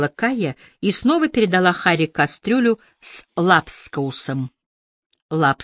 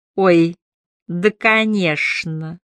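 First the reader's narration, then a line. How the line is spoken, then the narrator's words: Gloating lisp. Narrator (Russian): прошепелявил Брюн, наслаждаясь неловкостью Холма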